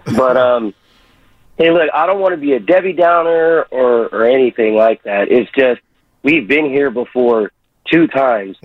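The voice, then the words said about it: Hoarse, strained voice. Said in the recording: “Excuse my voice. I was screaming my head off last night”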